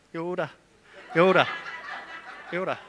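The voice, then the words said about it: Put-on Scottish accent. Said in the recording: “if a Scottish person said it ... it's saying Yoda in a Scottish accent”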